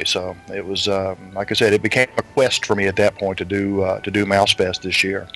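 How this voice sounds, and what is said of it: Middle Tennessee Southern accent. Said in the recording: “that accent, is that also from New Jersey? ... No, it's southern Tennessee. ... Yes, it's Middle Tennessee”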